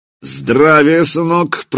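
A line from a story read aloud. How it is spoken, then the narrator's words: Deep bass. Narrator (Russian): пробасил он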